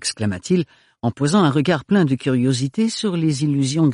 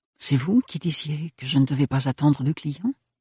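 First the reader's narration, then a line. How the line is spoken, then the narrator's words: Murmured. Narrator (French): murmura Ophélie à l'intention de Thorne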